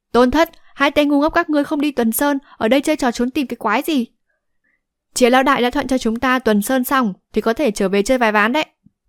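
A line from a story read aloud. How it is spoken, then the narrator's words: Loud, from afar. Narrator (Vietnamese): Giang Cửu từ xa đã lớn tiếng nói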